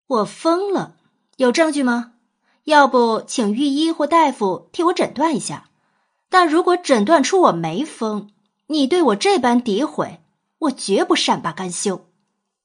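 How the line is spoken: Raised voice, slow. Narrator (Chinese): 扬声缓缓道

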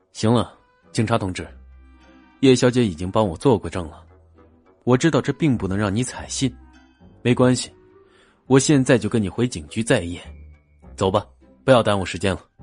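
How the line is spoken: Deep low voice. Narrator (Chinese): 他沉声开口

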